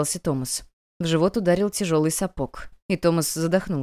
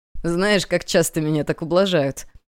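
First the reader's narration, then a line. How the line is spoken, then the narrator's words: Laughing through cough. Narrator (Russian): он рассмеялся сквозь кашель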